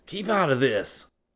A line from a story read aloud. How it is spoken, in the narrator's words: Scotty gasped